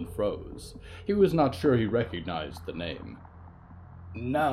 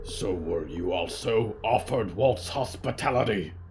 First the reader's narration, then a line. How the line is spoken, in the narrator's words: Riku grunted, a note of surprise